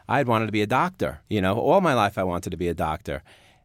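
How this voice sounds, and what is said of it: New York accent. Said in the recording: “Why didn't they correct your accent along the way? ... the school itself was located in New York. So we were all suffering from the same problem.”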